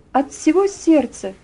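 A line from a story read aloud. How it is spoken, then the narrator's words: Ringing, joyful female voice. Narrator (Russian): ответила она звонким, радостным голосом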